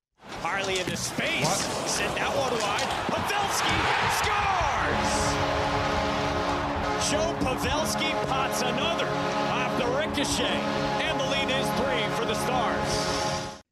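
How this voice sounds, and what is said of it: Imitates a sports play-by-play announcer. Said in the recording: “That was my best Bobby impression. ... That was incredible.”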